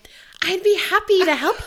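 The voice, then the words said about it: Fake-polite customer service voice. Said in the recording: “customer service voice”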